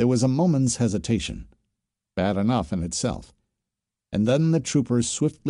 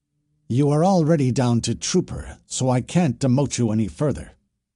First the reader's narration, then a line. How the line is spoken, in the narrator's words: Swift Killer barked